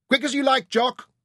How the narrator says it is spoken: Ryder shouted

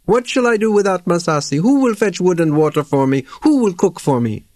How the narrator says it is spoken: He wailed and wept and said to Maori

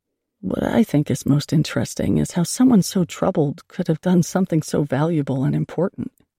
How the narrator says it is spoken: in a quieter tone, he told me

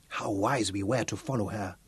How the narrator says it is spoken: Tebi whispered

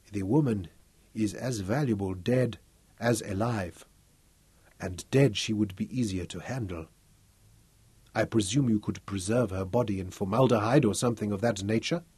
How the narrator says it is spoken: when he spoke, it was to muse softly

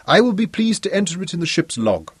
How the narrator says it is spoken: Clinton interrupted him cheerfully

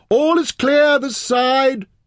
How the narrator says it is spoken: he shouted

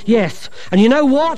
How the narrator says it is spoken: he yelled

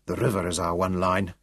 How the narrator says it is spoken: muttered

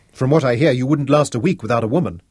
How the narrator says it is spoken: he snapped

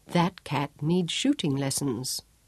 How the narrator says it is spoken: Job remarked calmly

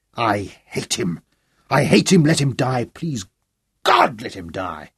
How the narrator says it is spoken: savagely

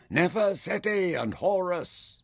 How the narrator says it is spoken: The foot soldiers shouted

